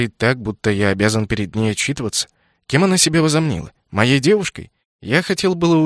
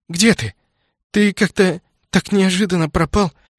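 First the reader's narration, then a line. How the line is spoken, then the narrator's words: Trembling young woman's voice. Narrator (Russian): дрожащим голосом продолжила девушка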